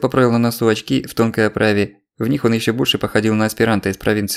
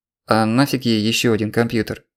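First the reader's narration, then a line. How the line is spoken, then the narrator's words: Plain. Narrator (Russian): спросил Алексей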